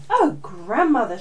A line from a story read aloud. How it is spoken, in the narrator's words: she gasped